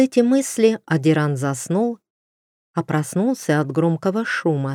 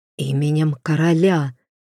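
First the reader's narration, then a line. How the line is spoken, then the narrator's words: Hoarse rasp. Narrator (Russian): прохрипел он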